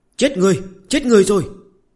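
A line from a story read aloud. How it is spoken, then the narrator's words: Panicked child's scream. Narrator (Vietnamese): một thằng nhóc gầy như que củi hét toáng lên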